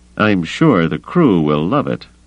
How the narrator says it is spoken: Avis said dryly

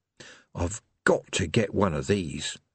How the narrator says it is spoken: he murmured

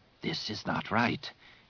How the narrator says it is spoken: Tizar rasped quietly

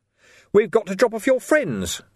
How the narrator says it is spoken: Vimes went on, raising his voice slightly

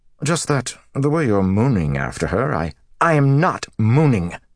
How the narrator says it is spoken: Matt snapped

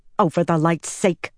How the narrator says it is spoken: Nynaeve snapped

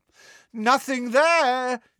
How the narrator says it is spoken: he shouted

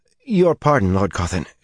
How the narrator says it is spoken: she said anxiously

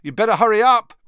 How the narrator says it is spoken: Ron called loudly after her

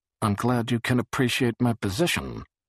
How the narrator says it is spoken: Barris was muttering

